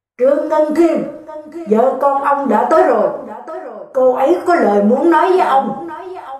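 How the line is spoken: Loud shout through megaphone. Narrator (Vietnamese): cảnh sát ở bên ngoài lại hét lớn vào ống loa

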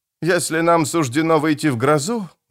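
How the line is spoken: Sighing. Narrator (Russian): вздохнул араб

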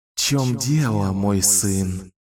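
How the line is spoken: Mocking hiss. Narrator (Russian): Насмешливо прошипел Даркин Рау

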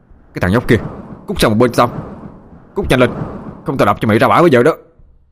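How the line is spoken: Loud angry shout. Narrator (Vietnamese): Khang hét to

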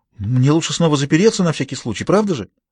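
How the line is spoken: Timid babbling. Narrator (Russian): Виктория пролепетала

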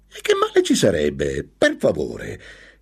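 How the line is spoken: Woman exclaiming bitterly. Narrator (Italian): esclamò con acredine la sua compagna

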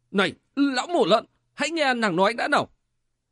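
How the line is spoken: Hurried loud shout. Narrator (Vietnamese): Ác cái Tiền Bình vội hét to

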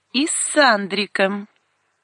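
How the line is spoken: Sarcastic prompt. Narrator (Russian): язвительно подсказал второй голос

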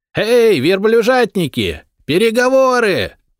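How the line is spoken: Sudden loud yell. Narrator (Russian): заорал вдруг воин со стены

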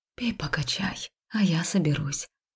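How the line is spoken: Soft whisper, female. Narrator (Russian): тихо прошептала я

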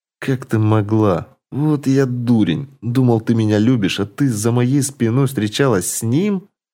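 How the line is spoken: Strained, forced words. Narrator (Russian): Выдавил из себя Олег

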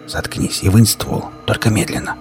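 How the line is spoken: Whispered. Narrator (Russian): прошептал

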